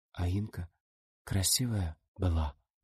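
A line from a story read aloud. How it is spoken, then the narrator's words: Whisper. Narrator (Russian): прошептала Рита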